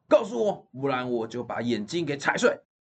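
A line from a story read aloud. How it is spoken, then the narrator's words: Loud. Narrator (Chinese): 破就是大声说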